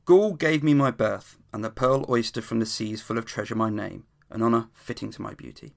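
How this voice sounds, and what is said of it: Formal dramatic reading voice. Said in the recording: “put on my best reading voice.”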